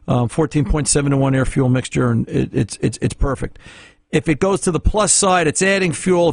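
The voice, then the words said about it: New Jersey accent. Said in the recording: “I'm probably saying that wrong. Everybody loves to tell me that, but that's just the Jersey accent.”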